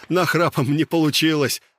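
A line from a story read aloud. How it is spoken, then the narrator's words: Laughing. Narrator (Russian): рассмеялся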